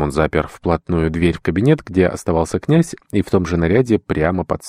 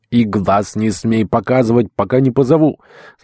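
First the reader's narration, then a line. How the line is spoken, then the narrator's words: Shouting after someone. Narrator (Russian): крикнув вслед ему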